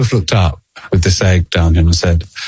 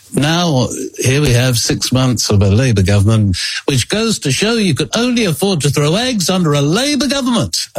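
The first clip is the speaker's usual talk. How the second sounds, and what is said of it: Harold Wilson impersonation. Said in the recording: “I can do it with the Harold Wilson impersonation”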